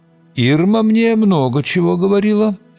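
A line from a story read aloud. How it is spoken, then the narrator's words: Rather gloomy. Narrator (Russian): ответил он довольно мрачно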